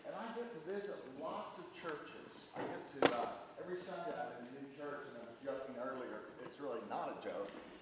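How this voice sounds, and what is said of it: Oklahoma American accent. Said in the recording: “my accent's from Oklahoma”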